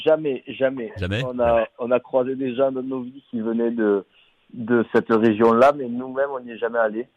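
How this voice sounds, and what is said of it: Southern French accent. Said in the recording (French): “vous êtes du sud de la France ... vous avez grandi à Narbonne, ça s'entend d'ailleurs dans votre accent.”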